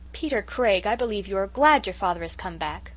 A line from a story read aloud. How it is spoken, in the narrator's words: cried the Story Girl